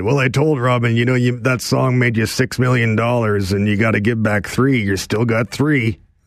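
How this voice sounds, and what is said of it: Imitates another person's voice. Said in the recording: “this is a very good impersonation.”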